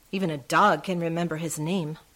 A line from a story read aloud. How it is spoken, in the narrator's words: mutters Taka